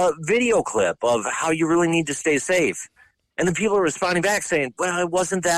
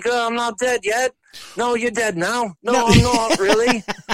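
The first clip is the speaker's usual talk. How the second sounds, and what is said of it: Put-on English accent, pretty good. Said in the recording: “I kind of caught the English accent there, right? That was ... really, ... pretty good.”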